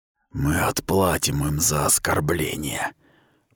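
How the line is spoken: Muffled whisper. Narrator (Russian): прошептал, и его голос затерялся в темноте шлема

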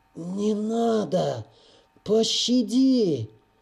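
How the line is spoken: Hoarse wheezing voice. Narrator (Russian): Захрипел он севшим голосом

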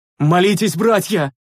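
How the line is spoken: Shout, just awakened. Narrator (Russian): крикнул очнувшийся Миргас

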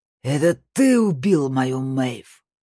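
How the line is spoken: Roar like wounded boar. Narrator (Russian): Рори Шин взревел, как раненый вепрь

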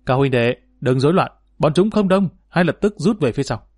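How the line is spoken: Loud command. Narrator (Vietnamese): Hắn lập tức cao giọng ra lệnh

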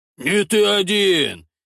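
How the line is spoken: Joyful declaration. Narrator (Russian): Также радостно заявляет Гондон

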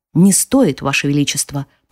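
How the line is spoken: Whispering. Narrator (Russian): прошептал он

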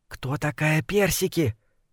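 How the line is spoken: Whisper. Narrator (Russian): прошептала злокозня

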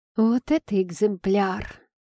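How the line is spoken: Languid teasing sigh. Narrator (Russian): Пытаясь подначить подругу, томно вздохнула я

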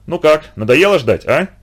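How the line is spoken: Cheerful laugh. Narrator (Russian): Весело засмеялся полковник

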